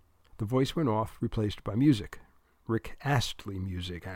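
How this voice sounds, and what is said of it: Usual voice. Nothing is said of it.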